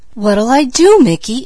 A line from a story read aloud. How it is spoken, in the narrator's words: anxiously inquired Peaches